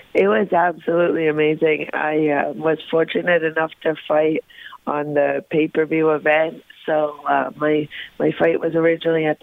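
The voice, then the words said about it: Slightly raspy, sore-throated voice. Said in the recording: “I got a little bit of a raspy voice. I got my throat's a little bit sore”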